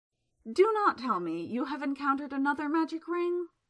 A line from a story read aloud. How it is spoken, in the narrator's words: he said wearily